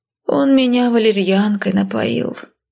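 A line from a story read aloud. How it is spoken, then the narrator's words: Moan. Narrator (Russian): простонала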